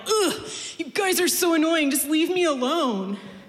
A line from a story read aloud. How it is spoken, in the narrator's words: he yelled